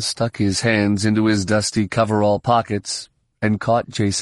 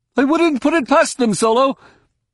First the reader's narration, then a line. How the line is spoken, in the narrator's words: Someone at the back of Romani's group shouted